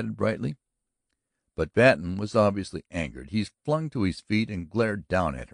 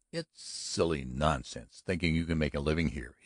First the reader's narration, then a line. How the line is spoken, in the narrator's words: he said irritably